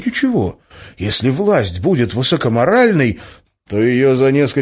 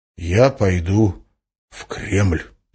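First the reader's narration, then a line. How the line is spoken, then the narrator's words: Icy voice. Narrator (Russian): сказал Валентин ледяным голосом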